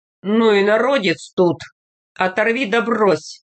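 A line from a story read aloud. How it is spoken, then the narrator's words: Hoarse deep voice. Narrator (Russian): Крестьянский начальник охрип, пробасил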